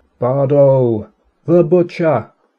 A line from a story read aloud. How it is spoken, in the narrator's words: bellowing over my shoulder